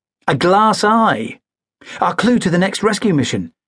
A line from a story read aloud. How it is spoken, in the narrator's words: exclaimed Zoe